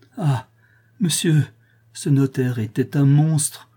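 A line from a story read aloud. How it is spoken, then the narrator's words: Exclaiming. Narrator (French): s'écria Madame Georges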